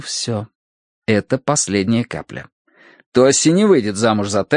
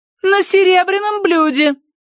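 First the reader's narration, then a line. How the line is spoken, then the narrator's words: Shouting after someone. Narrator (Russian): крикнула Тоси ему вдогонку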